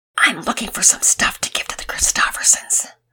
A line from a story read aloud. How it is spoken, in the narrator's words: He shushed her, shh, and whispered